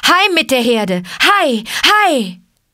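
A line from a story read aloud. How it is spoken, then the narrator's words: Shouted. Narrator (German): schrie er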